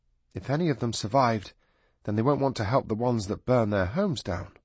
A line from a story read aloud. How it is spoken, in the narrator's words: Sally said sadly